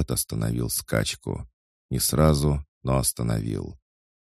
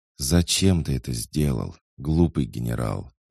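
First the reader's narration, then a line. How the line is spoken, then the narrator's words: Sighing. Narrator (Russian): вздохнула ведьма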